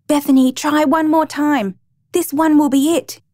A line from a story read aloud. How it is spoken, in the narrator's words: My dad kept shouting